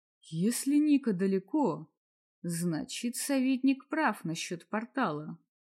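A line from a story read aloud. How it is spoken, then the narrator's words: Quiet remark. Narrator (Russian): тихо заметил Мартин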